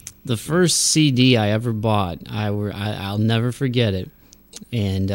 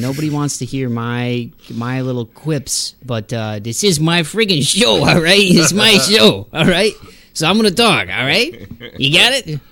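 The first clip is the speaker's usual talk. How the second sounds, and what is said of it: Weak Joe Pesci impression. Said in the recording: “my weak impression of Joe Pesci”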